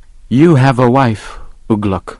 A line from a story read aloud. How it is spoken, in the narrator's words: he said